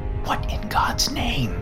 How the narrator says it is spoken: I whispered

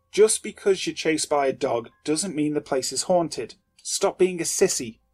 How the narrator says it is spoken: I snapped

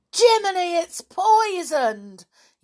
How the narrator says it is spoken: yelled Nobby

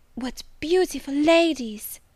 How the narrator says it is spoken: cried she in English

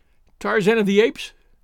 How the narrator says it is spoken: she cried

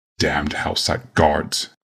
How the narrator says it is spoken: Yawgmoth snarled

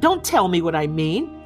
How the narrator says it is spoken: shouted Bess

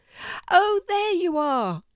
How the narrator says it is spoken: said Seymour happily

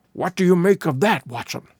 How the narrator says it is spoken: Holmes whispered

